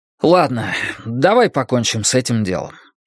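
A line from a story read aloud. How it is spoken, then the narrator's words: Said with a sigh. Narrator (Russian): сказал он, вздохнув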